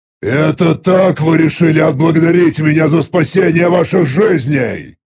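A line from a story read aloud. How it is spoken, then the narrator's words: Thundering voice. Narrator (Russian): прогремел мой голос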